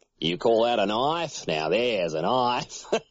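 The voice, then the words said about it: Broad Australian accent, Paul Hogan impression. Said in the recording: “Australian accent ... they just do a Paul Hogan impression ... the Paul Hogan accent is what they call the broad accent down there”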